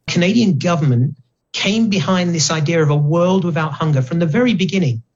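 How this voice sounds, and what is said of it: Speaks with a noticeable accent. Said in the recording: “As a Canadian, despite this accent”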